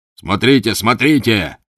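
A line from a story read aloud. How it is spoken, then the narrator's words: Furious shout. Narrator (Russian): яростно закричал господин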